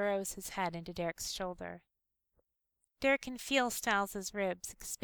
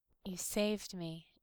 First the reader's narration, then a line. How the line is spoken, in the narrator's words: Derek whispers